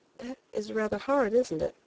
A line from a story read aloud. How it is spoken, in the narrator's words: I said quietly, forcing a smile